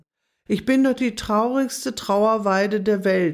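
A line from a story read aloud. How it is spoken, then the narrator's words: Deep sigh. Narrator (German): seufzte sie tief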